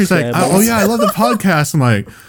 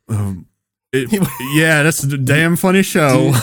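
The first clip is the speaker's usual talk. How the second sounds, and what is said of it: Thick put-on Southern accent. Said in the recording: “really thick Southern accent? ... How good's your Southern accent?”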